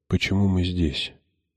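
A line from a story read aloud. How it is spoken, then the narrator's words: Muffled whisper. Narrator (Russian): прошептала я, уткнувшись в его рубашку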